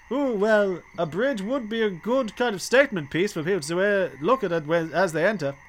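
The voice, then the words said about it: Put-on ogre accent. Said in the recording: “how is my ogre accent coming along? ... Offensive”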